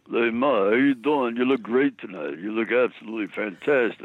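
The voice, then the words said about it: Imitates another person's voice. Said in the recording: “Stallone's mother was being interviewed ... what she would think of my impression”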